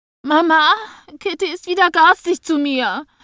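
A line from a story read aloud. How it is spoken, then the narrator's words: Screamed. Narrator (German): schrie sie und ballte die Hände zu Fäusten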